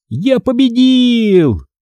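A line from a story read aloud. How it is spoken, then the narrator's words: Yelled. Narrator (Russian): завопил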